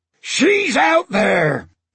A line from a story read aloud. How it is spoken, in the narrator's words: Stash shouted back